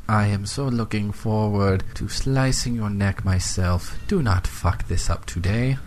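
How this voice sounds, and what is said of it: Phony put-on accent. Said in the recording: “that phony accent of yours”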